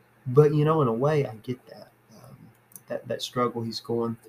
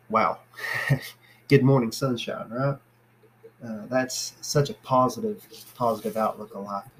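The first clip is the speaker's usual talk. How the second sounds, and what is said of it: Sarcastic tone. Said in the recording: “I'm being sarcastic”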